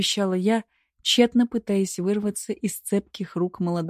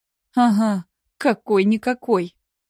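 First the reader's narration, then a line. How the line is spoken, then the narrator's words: Strained, forced words. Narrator (Russian): выдавила из себя я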